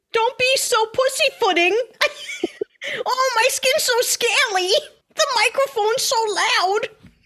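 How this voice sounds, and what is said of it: Old grandma character voice. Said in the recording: “Grandma voice. ... That's the grandma voice.”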